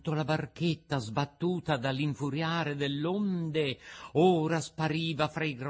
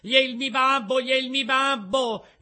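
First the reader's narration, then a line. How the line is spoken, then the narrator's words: Very shrill scream. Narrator (Italian): Pinocchio cacciò un urlo acutissimo gridando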